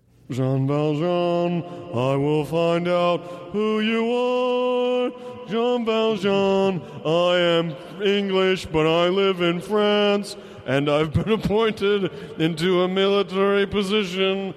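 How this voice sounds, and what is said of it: Singing impression of another person's voice. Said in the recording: “do an impression of Russell Crowe singing in Les Mis ... Give me some reverb”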